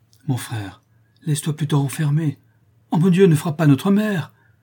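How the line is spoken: Terrified cry. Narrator (French): s'écria Amandine épouvantée

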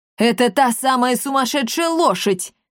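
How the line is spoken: Yelling. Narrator (Russian): завопил Руфус Анубис

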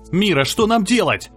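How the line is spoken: Shouting. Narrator (Russian): закричал

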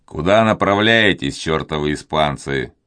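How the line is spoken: Rude question. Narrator (Russian): грубо спросил Филипп

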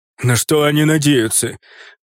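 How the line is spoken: Growled. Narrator (Russian): прорычал Драги

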